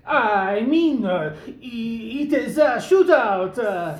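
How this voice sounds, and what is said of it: Fake French accent. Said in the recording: “switching to French accent”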